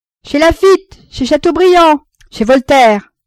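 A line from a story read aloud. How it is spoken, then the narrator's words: Young man yelling. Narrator (French): hurla le jeune homme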